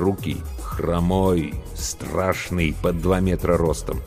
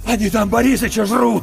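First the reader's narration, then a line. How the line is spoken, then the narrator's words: Shouted, shaking. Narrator (Russian): выкрикнул Иван, и его затрясло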